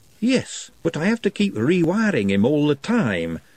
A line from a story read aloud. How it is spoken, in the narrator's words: sighed Hicks